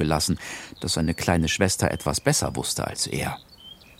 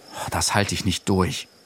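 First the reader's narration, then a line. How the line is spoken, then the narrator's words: Groaning. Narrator (German): stöhnte Sinan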